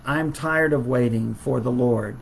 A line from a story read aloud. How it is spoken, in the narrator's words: the king said